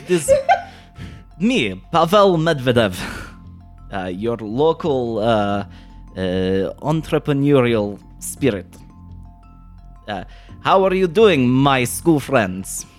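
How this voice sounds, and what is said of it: Put-on accent. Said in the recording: “let me get this accent right”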